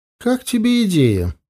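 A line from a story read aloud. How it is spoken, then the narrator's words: Mocking question. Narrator (Russian): насмешливо поинтересовалась Елена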